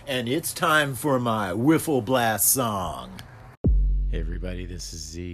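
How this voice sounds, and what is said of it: DJ announcer voice. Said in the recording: “put on my DJ voice”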